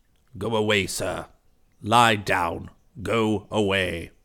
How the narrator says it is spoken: said, rasping

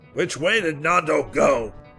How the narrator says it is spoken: bellowed Gerald

